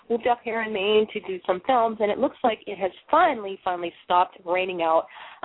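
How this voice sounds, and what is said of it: Boston accent. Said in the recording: “As you can tell by my voice, I am a Boston girl”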